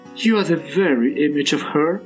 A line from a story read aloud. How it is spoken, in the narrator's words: she giggled